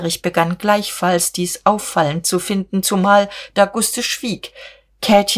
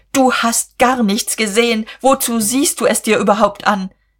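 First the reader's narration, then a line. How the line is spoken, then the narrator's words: Shouting. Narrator (German): rief Guste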